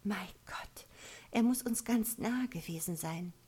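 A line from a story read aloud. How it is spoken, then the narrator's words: Whisper after oppressive pause. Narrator (German): Nach einer kurzen, bedrückenden Gesprächspause flüsterte Evelyn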